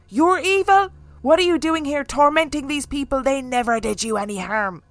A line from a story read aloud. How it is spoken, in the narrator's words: Kathy started shouting at her